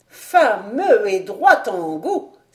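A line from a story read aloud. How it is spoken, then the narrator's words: Old woman exclaiming. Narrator (French): s'écria la vieille femme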